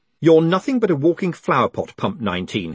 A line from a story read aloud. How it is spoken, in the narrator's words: he snapped